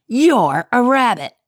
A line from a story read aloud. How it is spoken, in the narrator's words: snapped Grady